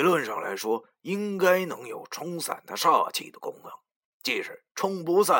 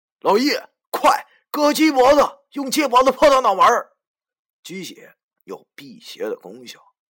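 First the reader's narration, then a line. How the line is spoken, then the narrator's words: Hurried, loud. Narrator (Chinese): 我慌忙大声对老易讲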